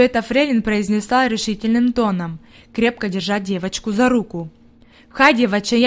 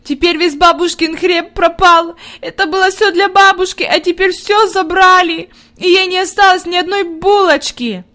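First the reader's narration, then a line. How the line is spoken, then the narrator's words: Inconsolable sobbing. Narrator (Russian): Она рыдала так, что казалось, нет ей никакого утешения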